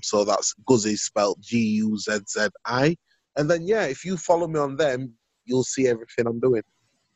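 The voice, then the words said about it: Speaks with a noticeable accent. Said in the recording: “I love the accent”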